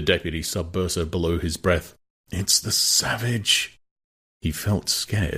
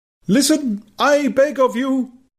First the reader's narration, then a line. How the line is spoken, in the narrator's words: cried the savage earnestly